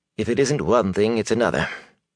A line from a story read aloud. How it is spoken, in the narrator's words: he muttered